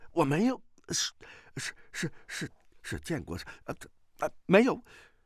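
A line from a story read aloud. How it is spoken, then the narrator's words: Startled, trembling voice. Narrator (Chinese): 崔百全 哦的一声惊呼 颤声道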